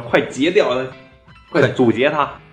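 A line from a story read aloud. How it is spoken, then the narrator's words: Shouting. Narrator (Chinese): 那个老卡冲我喊一声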